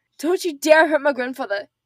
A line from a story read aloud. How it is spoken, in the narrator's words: she spat